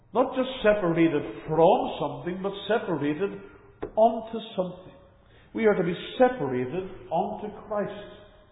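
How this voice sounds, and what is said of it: Northern Irish accent. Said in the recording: “You can tell by my accent, I'm not a local to Tasmania. I'm originally from the United Kingdom, from Northern Ireland in particular.”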